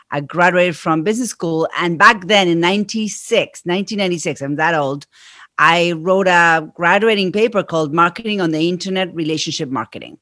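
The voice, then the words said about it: Argentine accent in English. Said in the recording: “I am from Argentina. That's where my accent is from.”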